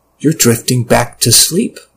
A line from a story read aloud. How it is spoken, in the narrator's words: my brain told me